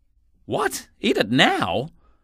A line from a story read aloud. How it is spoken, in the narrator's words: cried Jackal in a shocked tone of voice